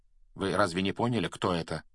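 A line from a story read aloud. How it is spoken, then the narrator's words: Calm question. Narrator (Russian): спокойно спросил Флоренс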